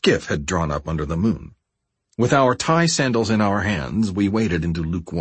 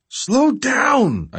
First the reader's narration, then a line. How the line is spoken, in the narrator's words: I shouted into the wind